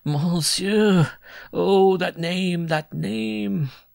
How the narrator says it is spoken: He sobbed out

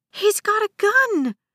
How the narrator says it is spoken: a passenger shrieked

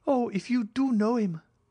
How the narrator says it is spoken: cried Julie

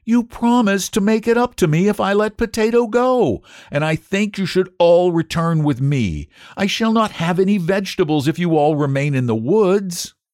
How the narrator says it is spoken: cried Antone in dismay

